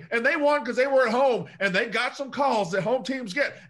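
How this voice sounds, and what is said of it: Yelling. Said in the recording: “stop yelling”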